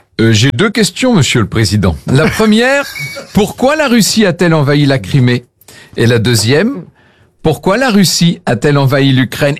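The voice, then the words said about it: Put-on Russian accent. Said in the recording (French): “Accent russe.”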